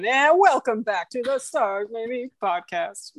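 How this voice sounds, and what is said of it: Announcer voice. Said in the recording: “doing my announcer voice”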